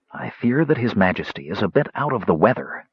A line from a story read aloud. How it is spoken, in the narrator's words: Sturm whispered